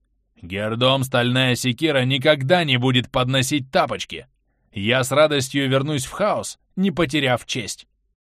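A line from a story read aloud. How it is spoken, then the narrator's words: Proud restrained deep bass. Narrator (Russian): стараясь сдержать бурный нрав, орк гордо поднял голову и пробасил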